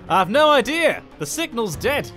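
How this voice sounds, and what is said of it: Poor put-on posh English accent. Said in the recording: “My accent has not improved. ... He's like a weird mix of Hugh Grant and David Attenborough.”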